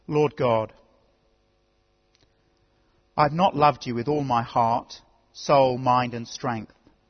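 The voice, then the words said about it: Slow, deliberate speech. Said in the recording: “say it slowly”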